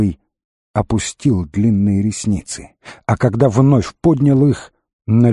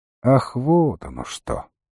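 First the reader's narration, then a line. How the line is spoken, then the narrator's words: Lazy drawl. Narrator (Russian): проговорил он лениво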